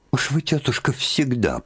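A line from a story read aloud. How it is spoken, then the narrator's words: Annoyed mutter. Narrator (Russian): пробормотала с досадой Марья Дмитриевна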